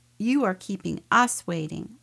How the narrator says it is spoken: one of the women snapped

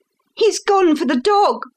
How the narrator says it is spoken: cried Miss Hunter

